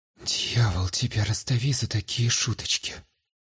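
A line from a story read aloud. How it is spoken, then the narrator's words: Relieved mutter. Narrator (Russian): Облегченно пробормотала Флогия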